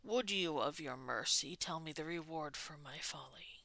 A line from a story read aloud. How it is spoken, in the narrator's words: He tried to keep his tone relaxed, but could clearly hear the strain under it